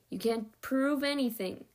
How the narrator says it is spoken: Dex grumbled

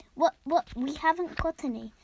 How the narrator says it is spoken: stammered Daddy Elephant

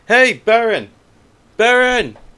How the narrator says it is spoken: Kurninos yells out

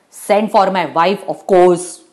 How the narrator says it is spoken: cut in angrily

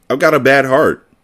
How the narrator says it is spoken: Mark replied cheerfully

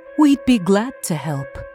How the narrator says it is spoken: Glactol replied smoothly

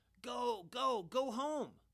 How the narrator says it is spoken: Everybody yelled

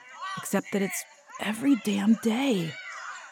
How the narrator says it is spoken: muttered Dylan

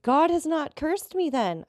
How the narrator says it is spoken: I cried

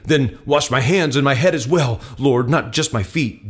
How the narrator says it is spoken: Simon Peter exclaimed

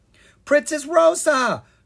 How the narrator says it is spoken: Kara cried

